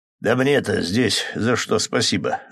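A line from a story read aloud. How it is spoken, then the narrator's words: Chuckling, then suddenly serious. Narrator (Russian): усмехнулся и внезапно посерьезневшим голосом добавил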